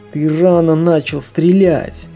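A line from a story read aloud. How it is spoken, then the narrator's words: Groaning. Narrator (Russian): простонал швед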